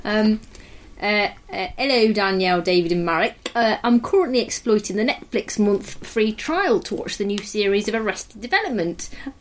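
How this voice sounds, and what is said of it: Put-on East Midlands English accent. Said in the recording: “I'm going to do an East Midlands accent.”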